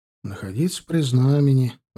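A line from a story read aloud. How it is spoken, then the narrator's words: Sighing reply. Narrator (Russian): вздохнув, ответил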